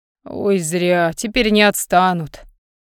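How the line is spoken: Sigh. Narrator (Russian): вздохнул Михей

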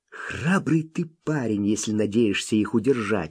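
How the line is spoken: Child's whispered reply. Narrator (Russian): шепнул в ответ малыш

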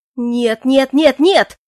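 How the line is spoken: Terrified shriek. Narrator (Russian): завопил Клоян

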